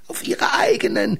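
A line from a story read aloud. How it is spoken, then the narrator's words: Laughing woman. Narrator (German): lachte eine Frau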